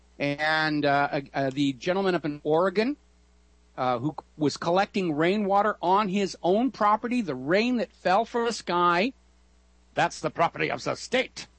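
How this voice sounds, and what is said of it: German accent. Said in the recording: “my German accent notwithstanding”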